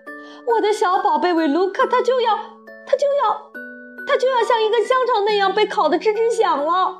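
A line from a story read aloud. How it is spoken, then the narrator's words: Woman shouting. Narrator (Chinese): 索尔特太太大叫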